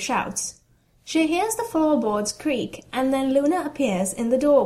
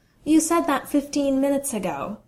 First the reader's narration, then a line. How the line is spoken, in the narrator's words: Luna observes calmly